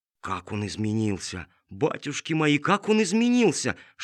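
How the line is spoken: Whisper. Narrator (Russian): шептала она

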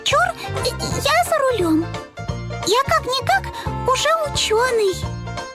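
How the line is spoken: Squeaky voice. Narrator (Russian): пропищал он

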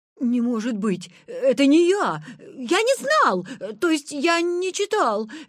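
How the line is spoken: Babbling. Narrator (Russian): лепетал Витя

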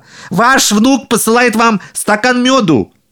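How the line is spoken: Shouting again. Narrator (Russian): Еще раз прокричал

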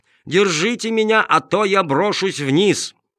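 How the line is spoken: Wailing yell. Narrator (Russian): Он ... завопил

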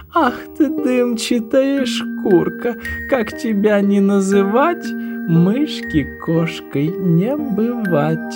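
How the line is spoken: Laughing. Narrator (Russian): Засмеялась кошка-мурка

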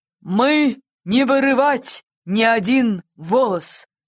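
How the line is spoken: Stern. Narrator (Russian): строго произнес серебряное перо

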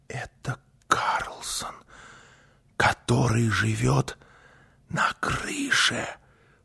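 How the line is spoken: Whisper. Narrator (Russian): прошептала Гунила

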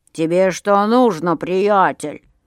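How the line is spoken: Grumbling angrily. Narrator (Russian): заворчал Миша и тоже начал сердиться

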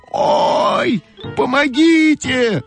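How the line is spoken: Scream. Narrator (Russian): закричала Ойка

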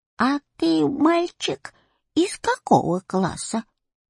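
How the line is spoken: Old woman's voice question. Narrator (Russian): старушечьим голосом спросила она

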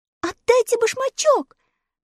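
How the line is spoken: Shout. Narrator (Russian): закричала Элли, придя в себя

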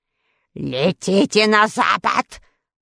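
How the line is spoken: Sorceress growling. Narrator (Russian): прорычала волшебница

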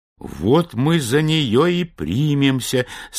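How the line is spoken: Plain. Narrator (Russian): сказал Гензель

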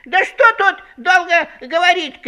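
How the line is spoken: Emboldened hare shouting. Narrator (Russian): кричал расхрабрившийся окончательно заяц

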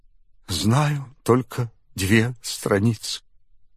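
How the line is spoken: Tearful. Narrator (Russian): бедный Алеша сквозь слезы отвечал

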